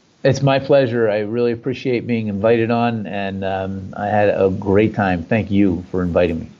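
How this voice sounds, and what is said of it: Slight New Jersey accent. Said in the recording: “I'm loving the New Jersey accent. I love that little bit of a little hint there.”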